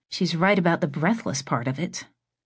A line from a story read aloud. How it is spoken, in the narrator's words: Dinah muttered to herself